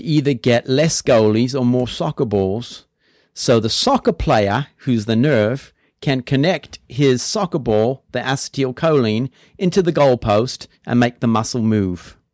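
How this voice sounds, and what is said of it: Put-on English accent. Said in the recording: “usually when people speak in an English accent, they sound a lot smarter, but you sounded much stupider, actually”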